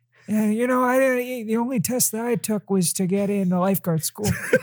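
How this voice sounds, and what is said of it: Imitates another person's voice. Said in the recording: “Do the Joe voice ... wow, that's pretty good”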